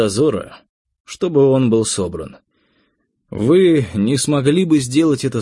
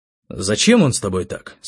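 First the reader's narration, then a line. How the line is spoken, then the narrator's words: Plain. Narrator (Russian): спросил я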